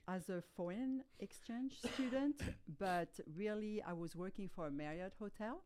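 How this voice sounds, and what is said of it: French accent. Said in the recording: “speaking with my French accent ... It's a fascinating accent ... such an original accent. You never hear a French accent.”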